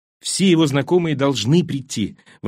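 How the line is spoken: Excited exclamation. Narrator (Russian): воскликнула Бетти взволнованно

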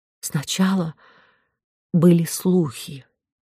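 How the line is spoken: Unsteady voice. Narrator (Russian): неверным голосом произнесла герцогиня

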